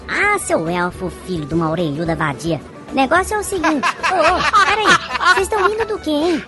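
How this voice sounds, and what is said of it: Man speaking in a girlish voice. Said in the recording (Portuguese): “Sua voz... Ele é um homem com voz de garotinha.”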